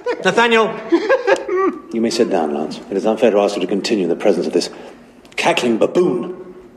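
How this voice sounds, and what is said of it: British accent. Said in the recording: “I think that's actually his real British accent.”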